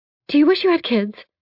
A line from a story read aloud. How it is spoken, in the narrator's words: I blurt out